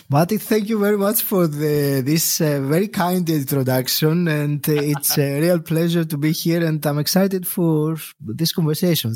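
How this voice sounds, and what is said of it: Mellowed Greek accent. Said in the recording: “where is that accent from? We don't have many strong accents on the show ... it is an original Greek accent that has been mellowed down by living over a decade in the UK”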